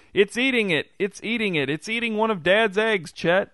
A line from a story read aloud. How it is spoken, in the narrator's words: Kenton hopping around in a circle and pointing to something under a bush as he yelled